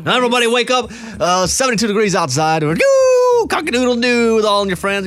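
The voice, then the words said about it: Old-school radio DJ voice. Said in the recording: “DJ voice ... do the DJ ... That's like old school DJ.”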